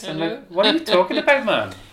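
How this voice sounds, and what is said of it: Sing-song Welsh accent. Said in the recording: “I came from Wales, I used to talk like this ... sing song”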